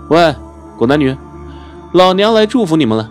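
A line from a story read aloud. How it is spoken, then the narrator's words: Confident, full-voiced. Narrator (Chinese): 现在的陆希文已经有资本了，说起话来底气十足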